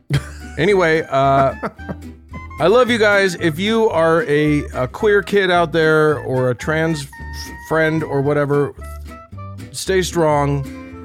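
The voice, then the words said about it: Strained, fading voice. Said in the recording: “I'm losing my voice here cuz I'm so mad about it”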